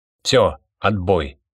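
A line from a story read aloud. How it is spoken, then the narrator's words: Abrupt, curt. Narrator (Russian): резко оборвал разговор Гургинадзе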